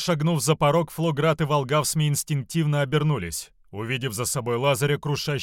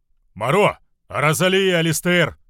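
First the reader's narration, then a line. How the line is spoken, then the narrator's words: Yelling. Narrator (Russian): орал Волгавсми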